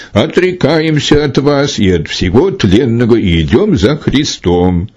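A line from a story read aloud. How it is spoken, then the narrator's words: Exclaiming. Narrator (Russian): воскликнул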